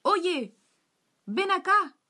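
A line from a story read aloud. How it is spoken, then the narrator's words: Shouted. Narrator (Spanish): gritó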